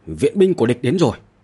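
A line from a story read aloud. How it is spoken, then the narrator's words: Sudden loud shout. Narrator (Vietnamese): Dương Khai đột nhiên hét lớn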